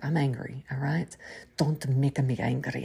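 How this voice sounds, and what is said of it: Poor imitation of Russian accent. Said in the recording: “That was the terrible Russian ... I just tried the accent a couple times, and sometimes it hits, and sometimes it's a miss”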